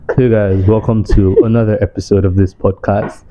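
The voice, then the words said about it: Put-on deep voice. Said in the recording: “Let me use deep voice.”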